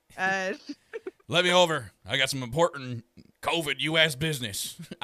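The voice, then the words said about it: Put-on Texan Southern accent. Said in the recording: “I'm from the South. Can't hear my accent? ... I'm from Texas.”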